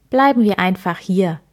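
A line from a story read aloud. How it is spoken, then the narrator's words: Plain. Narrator (German): sagte Herr Schwarz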